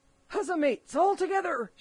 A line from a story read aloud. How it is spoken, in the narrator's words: shouted Mary